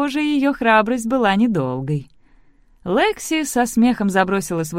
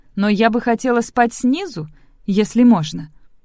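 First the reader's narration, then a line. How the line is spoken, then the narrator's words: Hurried. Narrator (Russian): торопливо добавила она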